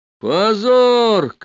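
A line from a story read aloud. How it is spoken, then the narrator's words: Tall student shouting. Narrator (Russian): кричал пришедший со мной высокий студент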